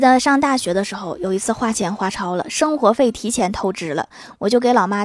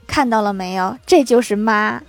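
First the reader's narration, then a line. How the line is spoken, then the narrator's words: Flat, indifferent. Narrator (Chinese): 我哥淡淡的说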